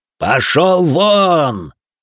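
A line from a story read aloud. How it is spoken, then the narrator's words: Loud yelling. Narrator (Russian): в голос заорал Лян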